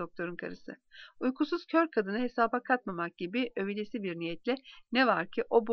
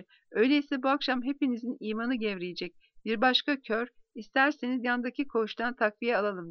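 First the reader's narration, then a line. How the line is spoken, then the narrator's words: Plain. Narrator (Turkish): dedi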